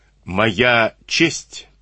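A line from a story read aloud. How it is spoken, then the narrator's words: Slow. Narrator (Russian): медленно проговорил Андрей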